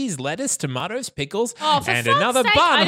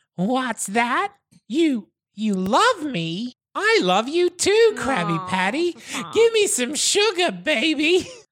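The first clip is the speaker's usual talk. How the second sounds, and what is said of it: Elmo character voice. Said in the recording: “I'm doing an Elmo voice.”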